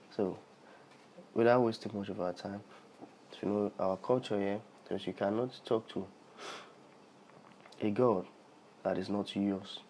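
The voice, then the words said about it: Sick, unwell-sounding voice. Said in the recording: “Sorry if my voice is somehow, I'm a bit sick”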